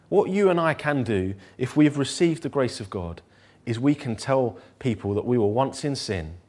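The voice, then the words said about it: North London English accent. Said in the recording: “I'm a lad who grew up in North London ... My accent is a bit rough in patches.”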